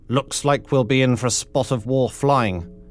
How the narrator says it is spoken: he smiled grimly

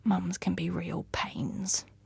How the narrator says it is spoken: whispered

